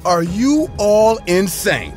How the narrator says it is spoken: I screamed

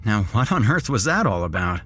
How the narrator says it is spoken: I said with a laugh

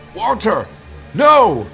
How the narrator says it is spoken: yelled

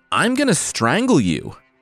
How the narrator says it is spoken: the dead man yelled

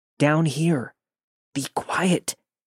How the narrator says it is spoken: He responded in the most shaken up voice

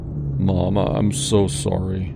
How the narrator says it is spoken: mumbled, his head hung low

